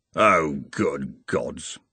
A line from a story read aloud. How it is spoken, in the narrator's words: murmured